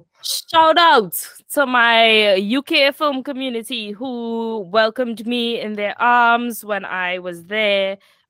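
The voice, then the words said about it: Cheerful, lively non-British accent. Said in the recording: “your accent is just like so happy and refreshing and like less monotone than all the British people I'm around”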